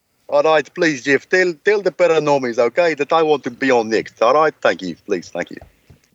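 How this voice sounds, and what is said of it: Imitates another person's funny foreign accent. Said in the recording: “the foreigner with the funny accent ... That was really good, actually.”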